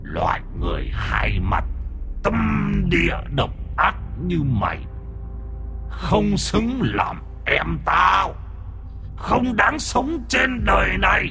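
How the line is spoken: Growling tiger, human voice. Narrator (Vietnamese): Âm thanh gầm gừ ở trong cổ họng con hổ, nó nói ra tiếng người

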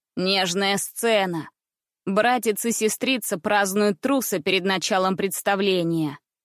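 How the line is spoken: Mocking boy. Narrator (Russian): Насмешливо произнес мальчик

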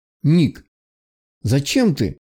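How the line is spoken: Frightened voice. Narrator (Russian): подал голос Барт, испуганно

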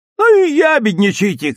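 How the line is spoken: Children shouting together. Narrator (Russian): крикнули ей ребята

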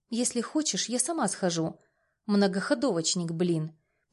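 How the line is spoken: Quiet. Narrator (Russian): Последнюю фразу произносит тихо

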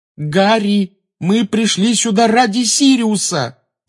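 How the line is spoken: High tense voice. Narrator (Russian): сказала она высоким напряженным голосом

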